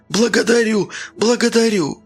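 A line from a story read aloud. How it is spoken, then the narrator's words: Sobbing, slobbering repetition. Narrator (Russian): всхлипывая и пуская слюни, повторял он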